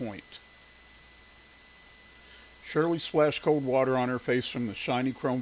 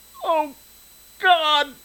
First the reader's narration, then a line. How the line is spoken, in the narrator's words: She wailed